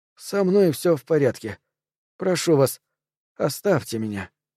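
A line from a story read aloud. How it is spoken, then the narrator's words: Reasonable voice. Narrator (Russian): он сказал рассудительным голосом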